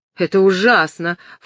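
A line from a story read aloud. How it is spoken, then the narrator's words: Snorted. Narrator (Russian): фыркнула Филиппа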